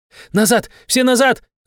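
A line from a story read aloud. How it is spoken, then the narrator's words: Shaman woman shouting. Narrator (Russian): закричала шаманка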